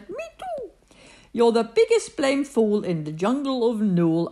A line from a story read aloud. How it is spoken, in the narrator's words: laughed the sour kangaroo